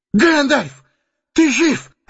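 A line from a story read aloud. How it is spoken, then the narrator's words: Exclaimed. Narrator (Russian): воскликнул он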